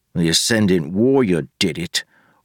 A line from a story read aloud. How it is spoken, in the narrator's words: Wayne grumbled